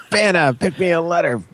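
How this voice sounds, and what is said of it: Imitates another person's voice. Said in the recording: “worst Vanna White impression”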